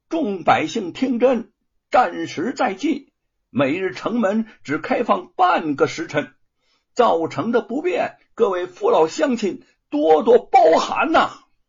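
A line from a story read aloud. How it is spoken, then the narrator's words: Loud officer's announcement. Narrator (Chinese): 军官 大声的说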